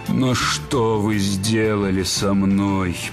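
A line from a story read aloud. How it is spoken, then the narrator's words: Moaning. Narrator (Russian): простонал он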